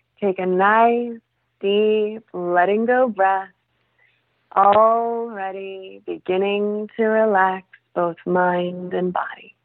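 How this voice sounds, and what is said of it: Put-on resonant hypnotherapist voice. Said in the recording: “Do you need to have this, resonant voice? ... I put on a voice.”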